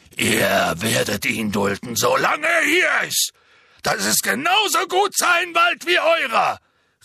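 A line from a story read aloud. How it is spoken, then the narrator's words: Calling out. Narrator (German): rief er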